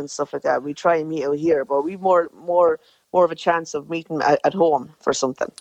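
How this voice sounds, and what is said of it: Strong Irish Clara accent. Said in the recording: “your strong Clara accent like your mammy”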